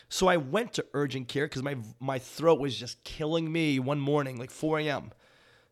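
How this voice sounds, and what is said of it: Slightly hoarse, sore-throat voice. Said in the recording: “I'm getting over it, but it's still there, right? I still kind of sound a little funny. You can probably hear it in my voice.”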